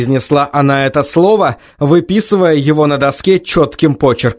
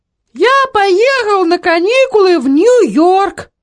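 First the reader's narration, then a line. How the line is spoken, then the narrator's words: Thin high voice. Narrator (Russian): тонким голосом произнес Эдвард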